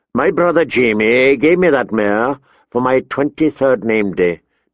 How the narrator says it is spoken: Tyrion said in a flat voice

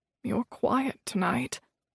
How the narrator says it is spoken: Hyacinth said to me in a low voice

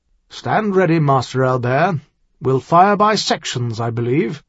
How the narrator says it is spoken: Captain Stewart said conversationally through the rumbling crash of Gale's last few shots

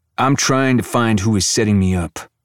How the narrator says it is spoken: growls

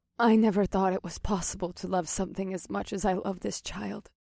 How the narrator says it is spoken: Mahini murmured

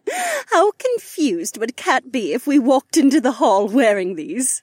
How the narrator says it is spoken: Becca laughed

